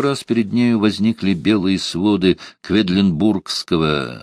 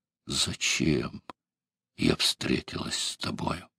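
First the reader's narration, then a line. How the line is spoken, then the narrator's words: Whispered. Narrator (Russian): Евпраксия прошептала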